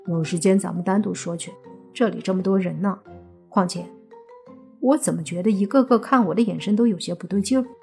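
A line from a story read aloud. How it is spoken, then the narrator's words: Low voice. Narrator (Chinese): 莫凡看了看周围的目光，低声道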